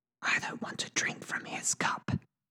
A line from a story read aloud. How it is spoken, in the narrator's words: Ari whispers